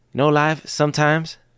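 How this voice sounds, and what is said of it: Terrible Ted Lasso impression. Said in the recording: “terrible Ted Lasso impression”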